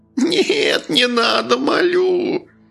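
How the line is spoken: Whimpering plea. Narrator (Russian): прохныкал жихарь

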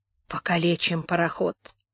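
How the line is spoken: Sighing. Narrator (Russian): вздохнул капитан

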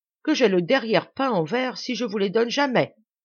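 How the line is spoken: Exclaimed, colorful free speech. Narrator (French): s'écria-t-il, par manière de parler libre et pittoresque qui était dans ses façons habituelles

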